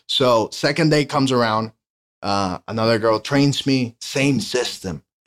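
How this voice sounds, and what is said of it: Strong Latin accent. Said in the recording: “The only thing that I had against me was my accent. ... I really had a strong, I still have it ... but I had a strong accent ... A guy that's Latin like me”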